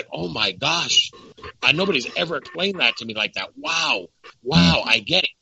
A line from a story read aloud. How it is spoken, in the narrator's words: he just gasped, and he was like